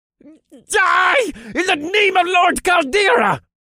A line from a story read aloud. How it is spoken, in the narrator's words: The cultist screeched as he lunged at me